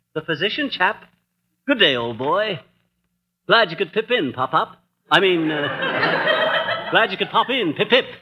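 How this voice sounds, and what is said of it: Put-on posh British accent. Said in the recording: “this Bond Street brogue ... a British accent”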